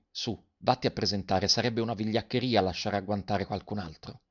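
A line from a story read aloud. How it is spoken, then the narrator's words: Quiet, low voice. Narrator (Italian): Garrone che disse piano a Garoffi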